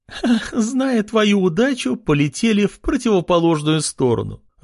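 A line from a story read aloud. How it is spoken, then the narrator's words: Loud laughing. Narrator (Russian): расхохоталась Кристина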